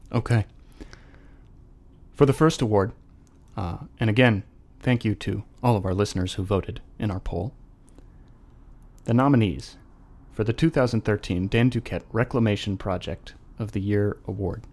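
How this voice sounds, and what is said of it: Forced low solemn voice, breaking. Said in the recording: “our faux solemn voices ... My voice is kind of breaking, and it sounds like I'm going to start crying ... my voice gets weird when I forcibly try to lower it”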